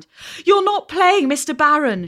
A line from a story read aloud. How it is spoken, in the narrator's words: she cried, breathless